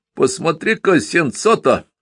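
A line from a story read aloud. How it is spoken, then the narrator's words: Shouted. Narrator (Russian): крикнул Павле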